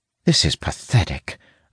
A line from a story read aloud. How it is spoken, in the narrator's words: Zara mutters